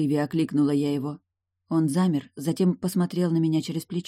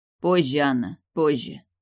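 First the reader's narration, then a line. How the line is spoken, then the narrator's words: Curt reply. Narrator (Russian): отрывисто ответил Вестер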